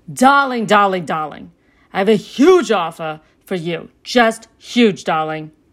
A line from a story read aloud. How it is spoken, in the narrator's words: yelling